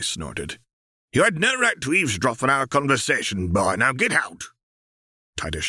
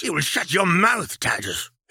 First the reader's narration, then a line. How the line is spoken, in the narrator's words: his father hissed